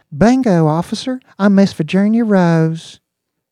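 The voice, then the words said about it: Believable put-on Southern accent. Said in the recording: “she said in a believable southern accent”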